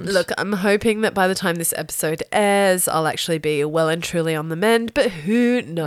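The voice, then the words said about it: Deep voice, sounds sick. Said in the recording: “I have to excuse my deep, deep voice ... sick ... Yeah, I'm sick.”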